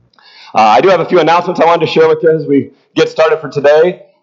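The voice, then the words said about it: Strained, worn-out voice. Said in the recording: “If you hear it in my voice, I'll apologize if I don't make it through this morning. I did too much yelling at a soccer game yesterday”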